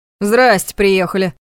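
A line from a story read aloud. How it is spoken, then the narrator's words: Surprised snort. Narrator (Russian): хмыкнул Ваня, удивлённо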